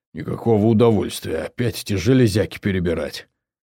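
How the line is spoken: Muttered. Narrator (Russian): пробормотав

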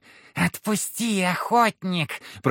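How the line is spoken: Hissing swamp creature. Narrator (Russian): прошипела кикимора

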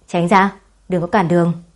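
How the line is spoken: Cold. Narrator (Vietnamese): Lục Dã lạnh lùng

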